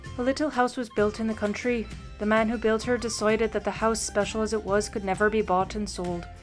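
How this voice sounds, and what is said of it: Put-on Irish accent, pirate-like. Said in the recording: “I want you to do it with an Irish accent, which is shockingly similar to the pirate accent of last week”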